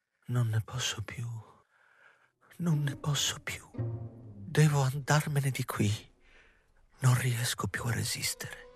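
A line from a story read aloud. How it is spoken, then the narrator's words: Muffled murmur into hands. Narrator (Italian): Nicoletta mormorò tra le mani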